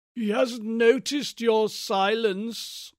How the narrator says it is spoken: croaked the old voice out of the great mask

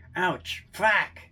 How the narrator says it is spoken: exclaims

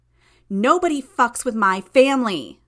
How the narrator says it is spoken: she shouted

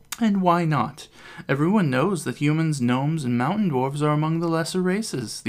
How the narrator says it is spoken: the elf exclaims further

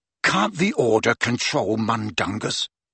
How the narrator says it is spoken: Harry demanded of the other two in a furious whisper

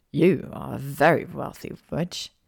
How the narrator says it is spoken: Draco mumbled

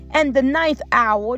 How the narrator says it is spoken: Jesus cried out with a loud voice

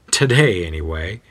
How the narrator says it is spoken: chuckles to himself

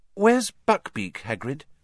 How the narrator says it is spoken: said Hermione hesitantly

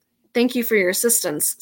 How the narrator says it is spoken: said the exorcist gravely

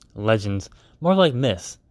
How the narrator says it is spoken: Alexander scoffed to himself

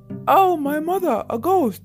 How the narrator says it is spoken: screamed the burglars

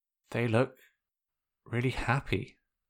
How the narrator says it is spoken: Zuko whispered

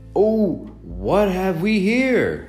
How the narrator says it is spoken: they cried

